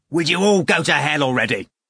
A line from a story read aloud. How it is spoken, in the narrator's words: Ivan shouted rudely